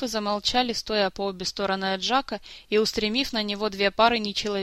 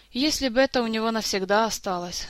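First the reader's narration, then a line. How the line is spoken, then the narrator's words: Sighing, young elf. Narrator (Russian): вздохнул юный эльф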